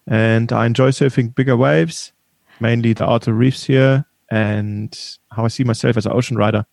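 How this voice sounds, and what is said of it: German-accented English. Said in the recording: “I pick up a kind of German or Swiss accent.”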